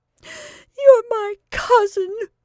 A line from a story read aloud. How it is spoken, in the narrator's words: sobbed Bernice